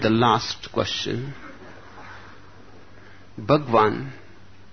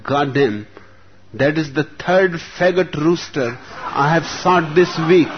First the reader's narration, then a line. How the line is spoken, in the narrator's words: exclaimed